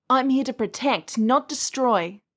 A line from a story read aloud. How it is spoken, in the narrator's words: I cried, quivering with denial and rage